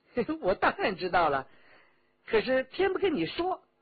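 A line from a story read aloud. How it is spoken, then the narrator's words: Laughing. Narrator (Chinese): 李元直笑道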